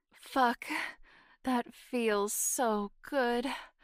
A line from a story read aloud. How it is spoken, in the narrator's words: I sighed